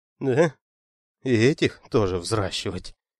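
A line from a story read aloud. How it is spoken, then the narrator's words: Mutter. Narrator (Russian): пробормотал царевич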